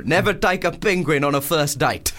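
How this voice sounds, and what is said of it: Put-on South African accent. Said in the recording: “That's a good South African accent... It's a really hard accent.”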